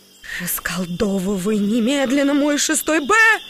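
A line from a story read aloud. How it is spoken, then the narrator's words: Shouting woman. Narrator (Russian): закричала Алина Викторовна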